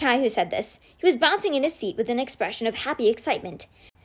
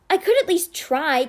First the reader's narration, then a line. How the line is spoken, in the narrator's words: Kate snapped with exasperation